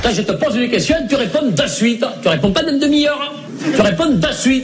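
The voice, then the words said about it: Put-on Southern French accent. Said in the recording (French): “prennent l'accent du Sud”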